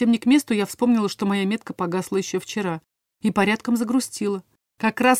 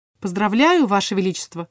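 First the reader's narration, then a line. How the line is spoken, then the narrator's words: Said coldly. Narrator (Russian): сказала холодно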